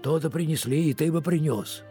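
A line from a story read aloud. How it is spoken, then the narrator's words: Soft, cheerful reply. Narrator (Russian): мягко и весело отвечал Ефремов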